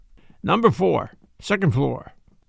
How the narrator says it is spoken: grunted out

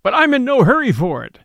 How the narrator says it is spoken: he said with a laugh, the same light laugh and pleasant voice

